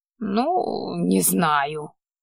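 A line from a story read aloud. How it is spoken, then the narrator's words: Grumbling. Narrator (Russian): проворчал все еще невидимый маг-придурок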